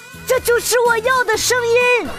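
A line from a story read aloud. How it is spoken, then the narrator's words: Child shouting, slapping desk. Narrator (Chinese): 第一排一个小崽子拍着桌子大喊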